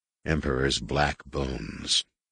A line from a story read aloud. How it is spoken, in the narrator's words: he muttered